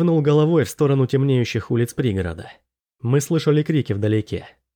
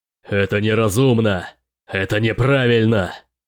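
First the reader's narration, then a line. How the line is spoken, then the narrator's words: Full-voiced shouting. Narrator (Russian): Мартус крича во весь голос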